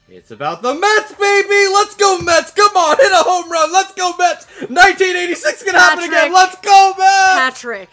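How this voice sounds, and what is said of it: Yelling loudly. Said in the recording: “why are you yelling”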